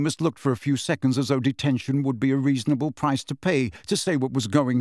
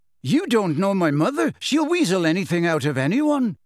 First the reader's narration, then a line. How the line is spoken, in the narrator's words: Seamus snapped at him